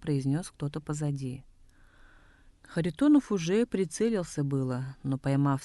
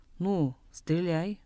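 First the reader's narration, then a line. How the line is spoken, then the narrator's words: Mocking tone. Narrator (Russian): насмешливо произнес Нема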